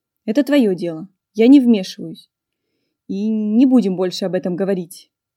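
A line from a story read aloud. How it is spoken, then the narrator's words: Sharp, not rude. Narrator (Russian): ответил не грубо, но резко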